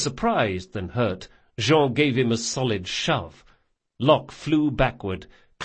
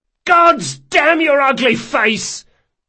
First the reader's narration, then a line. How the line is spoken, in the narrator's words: yelled Locke